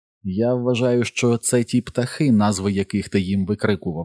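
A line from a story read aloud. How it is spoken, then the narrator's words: Plain. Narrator (Ukrainian): сказав Едді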